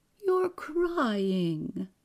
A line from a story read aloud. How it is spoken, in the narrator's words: the blind woman exclaimed